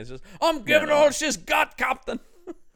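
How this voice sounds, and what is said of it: Put-on Scottish accent. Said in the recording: “how can you say that not in a Scottish accent”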